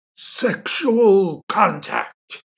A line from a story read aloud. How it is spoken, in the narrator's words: he roared